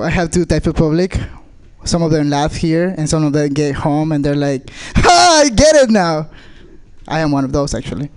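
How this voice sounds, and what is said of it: Speaks with a foreign accent. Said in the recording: “I'm an immigrant ... I have an accent, as you can tell”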